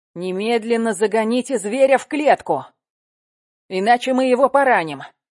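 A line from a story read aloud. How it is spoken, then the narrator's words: Shout. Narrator (Russian): Колосов крикнул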